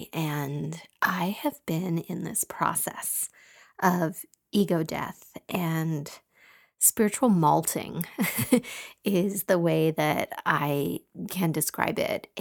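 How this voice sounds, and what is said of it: Slightly scratchy voice. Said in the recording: “my voice is a little scratchy today”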